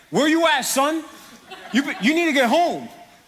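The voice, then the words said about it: Thick New York accent. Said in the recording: “that New York accent came out thick”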